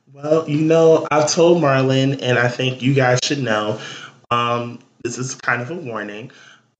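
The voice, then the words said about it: Slightly raspy strained voice. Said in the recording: “I'm dealing with a small case of laryngitis. So if my voice goes from regular tone to a little rasp, like you can't understand it”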